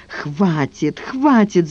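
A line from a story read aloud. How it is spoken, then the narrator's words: Shout. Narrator (Russian): закричала она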